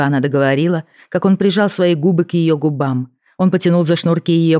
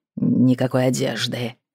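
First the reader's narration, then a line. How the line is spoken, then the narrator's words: Growl. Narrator (Russian): прорычал он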